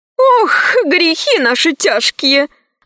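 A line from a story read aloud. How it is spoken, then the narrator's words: Grandmother sighing. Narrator (Russian): вздохнула бабушка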